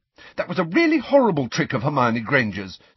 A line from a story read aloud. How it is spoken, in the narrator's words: said Cho fiercely